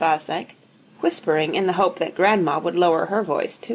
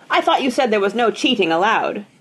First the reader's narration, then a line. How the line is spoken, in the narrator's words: Grandma said loudly and distinctly